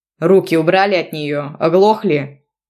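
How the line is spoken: Barked. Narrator (Russian): рявкнул Богдан

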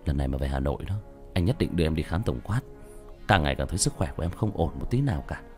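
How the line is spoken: Muttering. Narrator (Vietnamese): anh chồng vẫn còn lẩm bẩm

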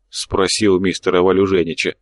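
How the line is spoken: Grumbling mutter. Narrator (Russian): пробурчал фрукторист

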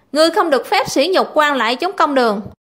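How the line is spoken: Angry loud shout. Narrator (Vietnamese): Địch Công giận dữ quát to

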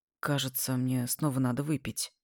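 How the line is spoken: Forced out quietly. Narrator (Russian): выдавил тихо

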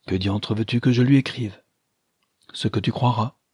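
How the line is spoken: Timid. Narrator (French): dit timidement Madame de Loris

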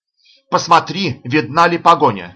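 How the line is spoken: Shouted over shoulder. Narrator (Russian): крикнул Адам через плечо Анатолю

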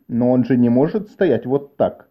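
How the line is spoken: Plain. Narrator (Russian): сказал Шем

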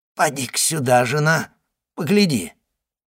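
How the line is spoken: Hoarse voice. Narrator (Russian): проговорил он хриплым голосом

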